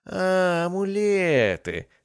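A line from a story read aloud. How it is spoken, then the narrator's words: Happy, sudden recollection. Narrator (Russian): радостно улыбнулся, словно только что вспомнил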